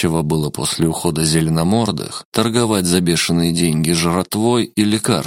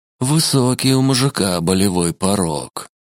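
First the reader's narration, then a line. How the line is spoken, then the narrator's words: Envious sigh. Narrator (Russian): завистливо вздохнул Шиноби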